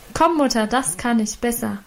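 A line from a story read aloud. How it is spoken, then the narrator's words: Calling out. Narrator (German): rief sie dazu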